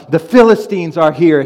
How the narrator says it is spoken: she yells out

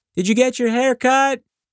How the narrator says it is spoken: mom yelled from the kitchen

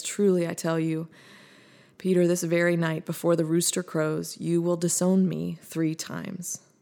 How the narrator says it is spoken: Jesus sighing as he says

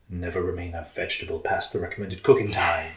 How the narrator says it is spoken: Prince Brassica whispered

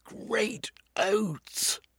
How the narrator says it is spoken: He cried

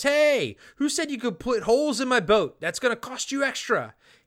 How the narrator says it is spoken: Finnegan yells

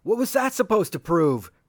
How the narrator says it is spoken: Top shouted

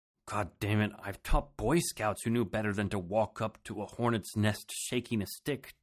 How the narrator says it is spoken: Tony grumbled

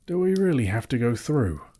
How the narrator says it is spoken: groaned the hobbit

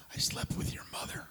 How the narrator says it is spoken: the older guy, after the first drink, whispers in the younger guy's ear

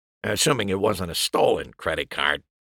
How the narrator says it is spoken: Wright grumbled

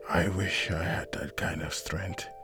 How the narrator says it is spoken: John muttered under his breath

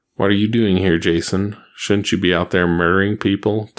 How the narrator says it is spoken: Tommy asked coldly

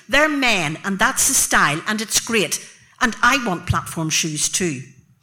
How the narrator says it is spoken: I'd shout

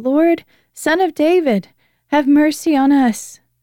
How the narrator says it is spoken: they cried out all the louder

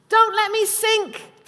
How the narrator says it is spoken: Peter cried

